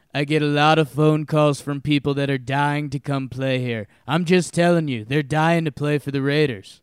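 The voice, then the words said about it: Donald Trump impression. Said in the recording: “That was my Trump voice. But if you read it in a Trump voice, it sounds like him.”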